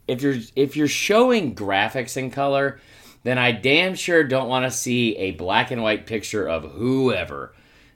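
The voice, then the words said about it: Yelling, loud voice. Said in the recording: “I'm sorry for yelling.”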